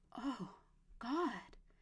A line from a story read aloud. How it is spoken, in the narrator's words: she whispered